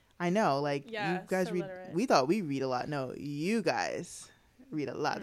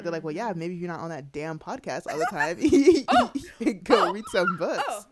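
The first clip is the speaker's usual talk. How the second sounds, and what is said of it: Imitates another person's voice. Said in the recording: “I sound like my mom.”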